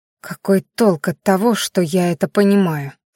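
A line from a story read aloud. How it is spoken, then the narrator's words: Through gritted teeth. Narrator (Russian): сквозь зубы процедила Майяри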